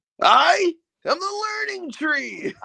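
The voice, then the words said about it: Very good impersonation. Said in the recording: “that was also a very good impersonation.”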